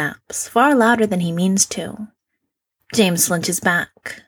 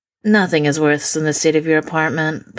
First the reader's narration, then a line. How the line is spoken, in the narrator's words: Polly says flatly